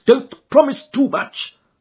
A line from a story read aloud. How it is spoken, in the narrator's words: snapped the detective